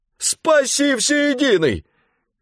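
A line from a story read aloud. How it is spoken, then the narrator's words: Shouted. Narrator (Russian): крикнул жандарм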